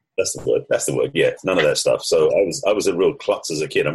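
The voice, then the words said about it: English accent. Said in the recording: “the accent may give it away, but I'm actually English, although I lived in the States for over 30 years”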